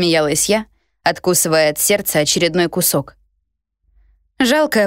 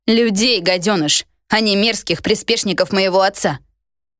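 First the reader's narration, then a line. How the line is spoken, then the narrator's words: Barked retort. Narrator (Russian): рявкнула в ответ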